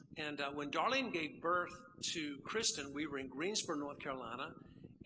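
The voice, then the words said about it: Middle North Carolina Southern accent. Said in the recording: “this accent comes from, that area, middle part of North Carolina”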